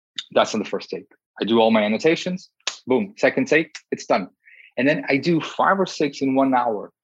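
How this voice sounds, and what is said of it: Speaks with an unusual accent. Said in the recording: “probably I have a weird accent.”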